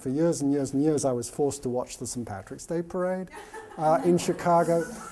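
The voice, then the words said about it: English accent. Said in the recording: “you can tell my accent is English, right?”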